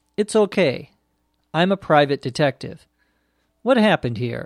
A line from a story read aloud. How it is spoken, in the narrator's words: asked